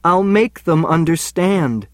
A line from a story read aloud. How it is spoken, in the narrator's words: I pleaded